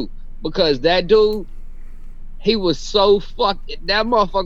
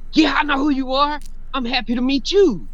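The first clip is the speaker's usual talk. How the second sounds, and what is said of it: Imitates another person's voice. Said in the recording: “that was a great impression”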